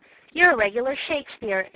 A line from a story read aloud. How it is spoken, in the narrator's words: exclaimed Beth